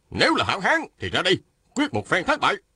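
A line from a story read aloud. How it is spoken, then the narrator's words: Shouting. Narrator (Vietnamese): Phan Tú Đạt la lên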